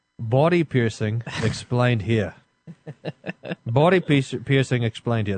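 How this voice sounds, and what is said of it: Put-on Australian accent. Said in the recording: “I'll give it to you in an Australian accent as well.”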